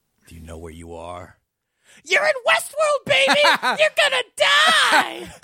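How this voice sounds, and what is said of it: Imitates another person's voice. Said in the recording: “That was a surprisingly good Axl Rose impression.”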